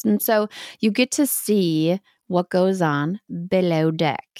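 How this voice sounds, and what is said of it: Weak put-on Australian accent. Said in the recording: “that was my Australian accent. It wasn't great. I can do better.”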